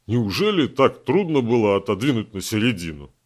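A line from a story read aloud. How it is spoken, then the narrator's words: Deep bass grumbling. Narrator (Russian): Басовитое ворчание Геннадия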